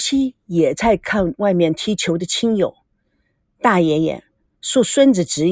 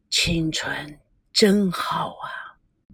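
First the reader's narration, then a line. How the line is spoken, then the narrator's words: Murmuring. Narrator (Chinese): 他喃喃地说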